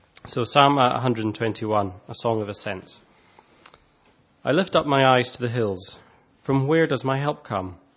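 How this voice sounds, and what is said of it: Thick Scottish accent, congested voice. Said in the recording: “difficult to understand because of my thick Scottish accent ... talking through a cold”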